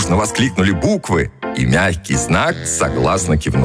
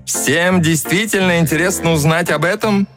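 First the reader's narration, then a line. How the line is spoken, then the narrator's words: Loud question. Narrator (Russian): Мягкий знак громко спросил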